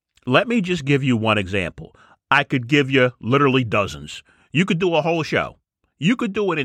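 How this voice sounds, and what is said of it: Usual voice. Nothing is said of it.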